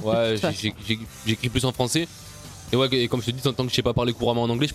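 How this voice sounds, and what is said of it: Strong southern French accent. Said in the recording (French): “j'ai un bon accent du sud quand même”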